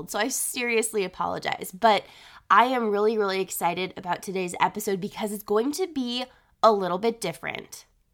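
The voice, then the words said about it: Congested voice with a head cold. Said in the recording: “I am so sorry that my voice sounds like this. I got sick this last week, and I am still fighting off the lingering effects of having a head cold.”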